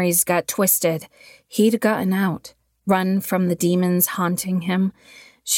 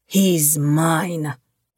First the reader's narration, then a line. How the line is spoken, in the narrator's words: he growled